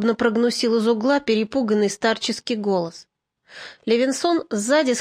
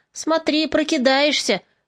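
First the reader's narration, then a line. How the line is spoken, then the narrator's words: Partisan shouting out. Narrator (Russian): выкрикнул кто-то из партизан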